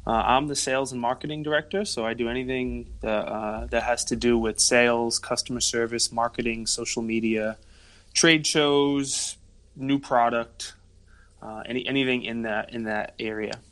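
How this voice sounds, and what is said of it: Rhode Island East Coast accent. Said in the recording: “are you from the East Coast? ... I thought I recognized that accent ... it's definitely not Jersey or New York ... Rhode Island has its own accent. We're not a Mass accent. We're not New York.”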